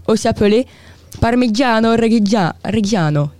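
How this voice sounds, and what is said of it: Accented pronunciation of Italian name. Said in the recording (French): “Désolé pour mon accent.”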